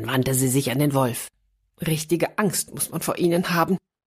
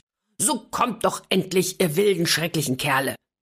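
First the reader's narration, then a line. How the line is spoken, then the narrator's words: Seemingly angry call. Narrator (German): Die Häsin ... rief anscheinend zornig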